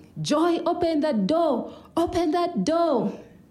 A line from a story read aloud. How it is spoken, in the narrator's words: his brothers joined in, screaming